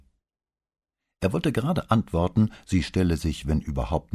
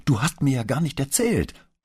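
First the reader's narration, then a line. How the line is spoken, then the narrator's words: Calling from hallway. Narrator (German): rief sie schon im Flur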